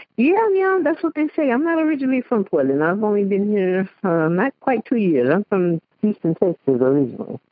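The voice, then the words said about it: Slightly Cajun-sounding Southern accent. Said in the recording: “your accent's a little Cajun-y to me”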